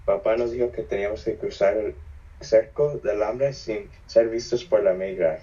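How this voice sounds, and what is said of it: Raspy voice. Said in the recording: “my raspy voice ... because I still sound raspy.”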